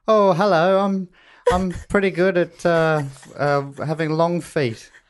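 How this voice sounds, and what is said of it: Impression of co-host, British-sounding. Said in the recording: “Do my impersonation... Am I British?... I'm a little bit British.”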